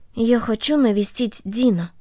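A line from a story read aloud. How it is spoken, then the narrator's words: Quiet. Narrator (Russian): Корнелли тихо сказала ей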